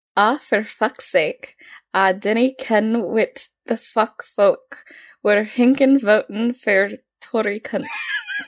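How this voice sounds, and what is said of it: Weak put-on Scottish accent. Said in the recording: “try and read it in the Scottish accent ... I'm not going to say I'm attempting a Scottish accent because we all know that I can't do one.”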